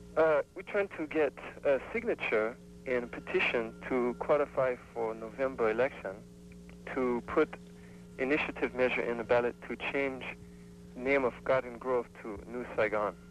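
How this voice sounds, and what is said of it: Sick, congested-sounding voice. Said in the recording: “I have a cold.”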